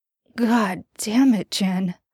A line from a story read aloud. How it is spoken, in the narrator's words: he mutters